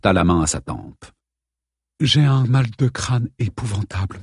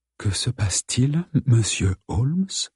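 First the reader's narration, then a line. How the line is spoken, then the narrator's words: Weak-voiced question. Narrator (French): demanda-t-elle d'une voix faible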